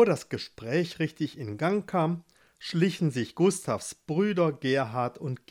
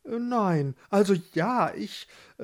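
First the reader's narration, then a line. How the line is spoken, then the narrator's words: Stammering. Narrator (German): stammelte Gustav weiter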